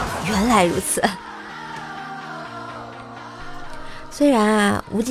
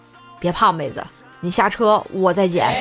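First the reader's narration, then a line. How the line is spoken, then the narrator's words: Calm gentlemanly smile. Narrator (Chinese): 无忌啊淡然一笑，很绅士的说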